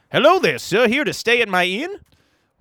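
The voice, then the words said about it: Weird put-on innkeeper voice. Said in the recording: “What's wrong with your voice? ... This man's got a weird voice problem.”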